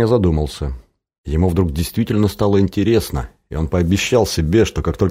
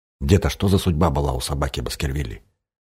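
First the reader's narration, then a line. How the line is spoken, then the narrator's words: Whispered question. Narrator (Russian): Женя шепотом спросил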